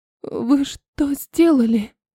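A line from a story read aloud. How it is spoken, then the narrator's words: Unsteady voice. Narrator (Russian): Неровным голосом попыталась спросить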